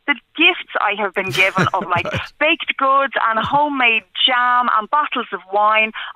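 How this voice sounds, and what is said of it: Black Rock regional accent. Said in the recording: “It's the Black Rock accent.”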